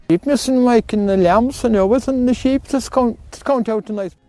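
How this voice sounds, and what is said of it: Very thick, hard-to-understand accent. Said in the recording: “even that guy's accent had an accent.”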